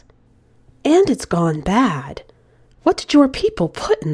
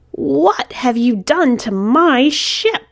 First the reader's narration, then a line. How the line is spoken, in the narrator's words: roared